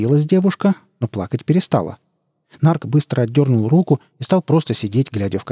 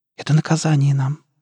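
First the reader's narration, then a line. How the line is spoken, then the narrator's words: Tearful convinced whisper. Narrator (Russian): убежденно прошептала Лера, по щекам которой катились слезы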